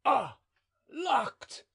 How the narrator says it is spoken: exclaimed

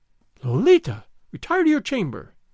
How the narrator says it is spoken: Doña Catalina exclaimed

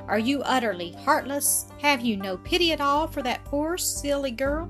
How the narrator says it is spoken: cried his sister

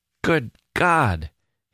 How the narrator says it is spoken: he kept exclaiming

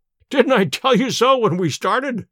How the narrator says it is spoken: cried Sherlock Holmes with a laugh

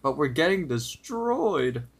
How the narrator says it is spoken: tries pleading with him, saying

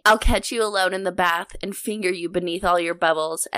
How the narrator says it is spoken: Ezra said, chuckling, but his voice was strained

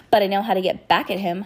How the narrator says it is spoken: she said angrily

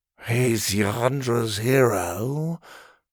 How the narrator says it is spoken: Farlin muttered dreamily

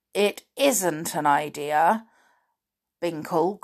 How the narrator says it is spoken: groaned Flip

